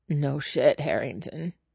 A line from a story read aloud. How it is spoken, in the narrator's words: he says, eventually, surprised at the croak of his own voice